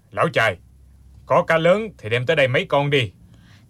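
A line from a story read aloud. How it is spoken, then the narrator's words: Deep booming voice. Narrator (Vietnamese): trên bờ có giọng ồm ồm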